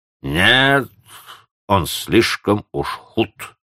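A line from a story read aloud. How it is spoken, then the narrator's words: Old woman grumbling through teeth. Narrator (Russian): проворчала сквозь зубы старуха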